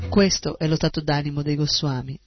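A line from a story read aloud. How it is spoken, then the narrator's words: Plain. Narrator (Italian): disse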